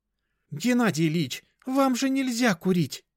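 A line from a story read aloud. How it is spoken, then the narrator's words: Nurse exclaiming. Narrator (Russian): воскликнула медсестра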